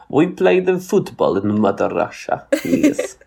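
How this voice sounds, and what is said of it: Put-on Russian accent. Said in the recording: “like in a Russian accent? ... this is a European-ish football accent ... you're just doing a Russian accent”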